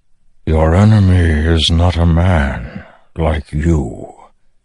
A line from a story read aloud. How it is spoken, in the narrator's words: the Stormfather replied, voice rumbling, thoughtful, even frightened